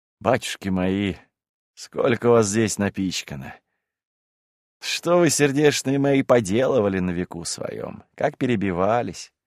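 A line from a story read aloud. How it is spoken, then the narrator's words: Tender, sighing. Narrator (Russian): он умилился духом и, вздохнувши, произнес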